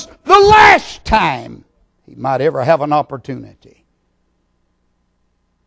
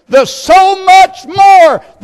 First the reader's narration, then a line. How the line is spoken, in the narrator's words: He cried